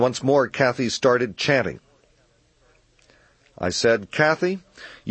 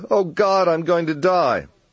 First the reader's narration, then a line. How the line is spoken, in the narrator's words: Kathy wailed